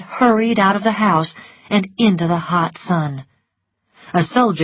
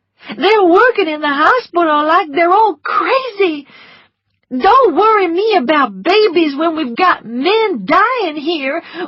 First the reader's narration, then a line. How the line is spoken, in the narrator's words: one of them shouted at me